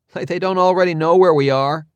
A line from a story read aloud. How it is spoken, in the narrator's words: someone scoffed